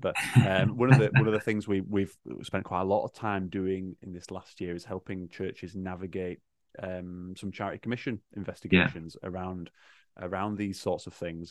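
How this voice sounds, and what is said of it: Yorkshire English accent. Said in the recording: “my Yorkshire accent”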